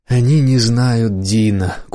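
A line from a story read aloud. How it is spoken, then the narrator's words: Short sigh. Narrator (Russian): коротко вздохнула миссис Восс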